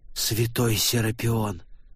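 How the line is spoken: Shocked whisper. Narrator (Russian): потрясенный шепот

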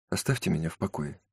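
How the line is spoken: Very quiet. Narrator (Russian): очень тихо сказала Мэри Энн

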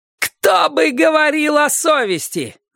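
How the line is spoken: Shouting. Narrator (Russian): закричала миссис Сейбин

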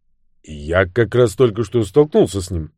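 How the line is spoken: Plain. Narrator (Russian): сказал Люк

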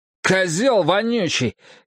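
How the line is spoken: Sudden bark. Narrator (Russian): неожиданно рявкнул Бенджамин

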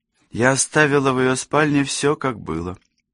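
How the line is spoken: Sighing. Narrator (Russian): вздохнула Алисия

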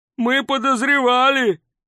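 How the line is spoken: Yelling. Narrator (Russian): завопил кто-то из звездолобых

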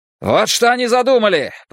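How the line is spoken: Shouting. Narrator (Russian): прокричал он солдатам

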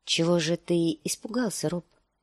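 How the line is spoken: Soft question. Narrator (Russian): спросила она мягко

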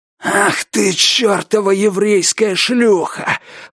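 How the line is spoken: Hissing young man. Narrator (Russian): прошипел парень с татуировкой

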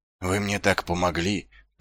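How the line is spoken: Muttered. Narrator (Russian): пробормотал Ваймс

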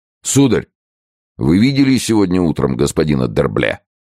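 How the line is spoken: Sharp question. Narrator (Russian): Фуке, в упор резко спросил

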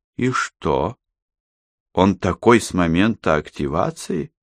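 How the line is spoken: Calm question. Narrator (Russian): спокойно поинтересовалась она

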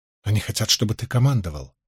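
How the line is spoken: Quiet. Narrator (Russian): тихонько ответила Фейли

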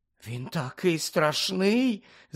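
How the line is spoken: Whisper. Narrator (Ukrainian): зашепотіла Парваті

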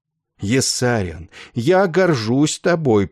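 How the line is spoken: Heartfelt exclamation. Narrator (Russian): проникновенно воскликнул он

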